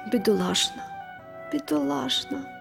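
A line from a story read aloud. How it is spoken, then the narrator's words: Quiet repetition. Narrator (Ukrainian): повторювала вона тихо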